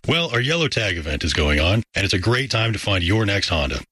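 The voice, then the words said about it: Sultry radio-announcer voice. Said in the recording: “nice radio voice ... so sultry of a voice”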